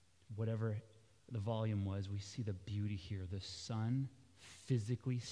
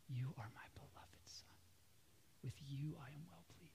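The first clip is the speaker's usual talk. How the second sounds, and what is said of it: Loud whisper. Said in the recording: “Was it a whisper, maybe? ... Could have been a loud whisper.”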